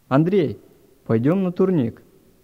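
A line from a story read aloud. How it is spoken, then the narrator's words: Shout. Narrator (Russian): Вадим крикнул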